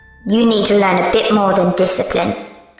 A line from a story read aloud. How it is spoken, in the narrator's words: Victoria said, her voice louder as the basement compressed